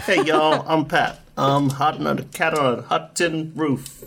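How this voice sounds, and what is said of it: Bad generic American, North Carolina twang. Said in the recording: “Pat impression is so bad ... my generic American impression ... Your generic American has a North Carolina stank to it”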